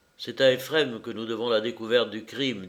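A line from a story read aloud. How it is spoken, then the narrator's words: Plain. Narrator (French): dit Tchekhov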